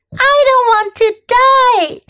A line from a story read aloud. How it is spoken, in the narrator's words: screamed Wilbur